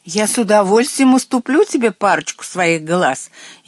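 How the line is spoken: Snide shout. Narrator (Russian): ехидно крикнула ему вслед девятиглазка

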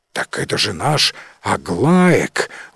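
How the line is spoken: Exclaiming. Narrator (Russian): воскликнул один из фермеров

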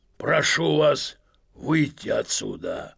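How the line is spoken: Hoarse rasp. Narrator (Russian): прохрипел он

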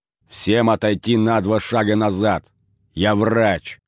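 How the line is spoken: Barked command. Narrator (Russian): рявкнул Долгов

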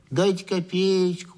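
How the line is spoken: Nasal drawling simpleton. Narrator (Russian): гнусавил протяжный дурачок

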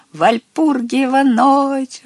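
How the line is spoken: Joyful shout, little witch. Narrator (Russian): радостно кричала маленькая баба-яга

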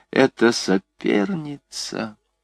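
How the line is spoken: Sorrowful inner whisper. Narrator (Russian): какой-то еще более горестный голос прошептал

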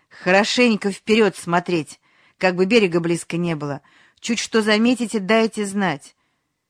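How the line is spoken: Loud, commanding. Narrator (Russian): громко и властно сказал

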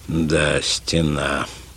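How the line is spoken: Thoughtful mutter. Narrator (Russian): задумчиво пробормотал доктор

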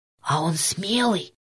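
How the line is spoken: Whispered question. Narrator (Russian): шепотом спросил Петька

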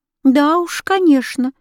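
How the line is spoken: Sudden startled exclamation. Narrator (Russian): вдруг воскликнула Христлиба, как будто очнувшись от сна

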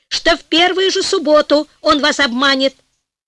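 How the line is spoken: Heated shout. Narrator (Russian): в запальчивости закричал главный министр

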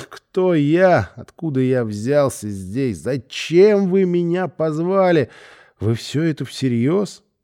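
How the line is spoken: Laughing exclamation. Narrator (Russian): внутренне хохотал, восклицая

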